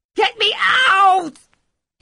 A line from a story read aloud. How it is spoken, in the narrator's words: He shrieked